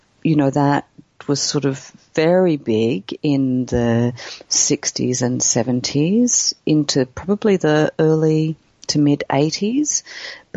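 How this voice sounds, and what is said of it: Cultivated Australian accent. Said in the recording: “a very similar way to the way I'm speaking now, I think, we would consider to be cultivated Australian”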